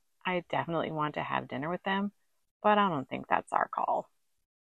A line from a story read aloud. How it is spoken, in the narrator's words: Jackie says gently